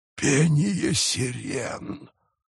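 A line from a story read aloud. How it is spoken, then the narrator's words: Pirate whispering. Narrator (Russian): прошептал пират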